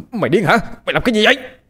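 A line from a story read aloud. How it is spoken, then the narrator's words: Shouted. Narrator (Vietnamese): một tên hét lên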